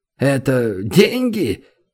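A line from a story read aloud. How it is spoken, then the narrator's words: Disdainful snort. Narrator (Russian): Лекарь брезгливо фыркнул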